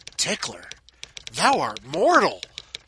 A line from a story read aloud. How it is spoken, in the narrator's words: The first advisor probably should have whispered